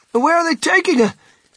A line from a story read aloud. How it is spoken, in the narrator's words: shrieked Mrs